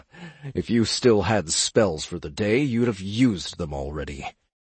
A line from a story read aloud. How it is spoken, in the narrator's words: Ed said, chuckling mirthlessly